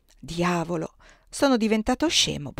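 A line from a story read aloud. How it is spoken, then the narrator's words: Muttering. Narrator (Italian): borbottò alla fine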